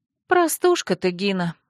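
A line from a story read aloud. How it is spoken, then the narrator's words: Sighing. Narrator (Russian): вздохнула я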